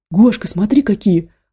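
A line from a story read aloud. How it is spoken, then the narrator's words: Excited exclamation. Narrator (Russian): воскликнул Никита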